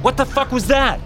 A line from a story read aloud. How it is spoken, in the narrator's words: I yelled